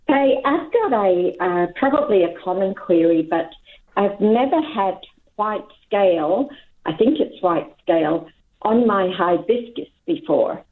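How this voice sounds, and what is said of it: Scottish accent. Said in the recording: “I think it's my Scottish accent”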